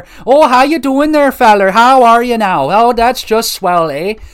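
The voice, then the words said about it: Put-on Minnesotan Canadian accent. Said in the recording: “that classic, oh, Minnesotan and Canadian accent there”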